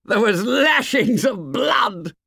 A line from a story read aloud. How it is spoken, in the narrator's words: said Jack, laughing and shuddering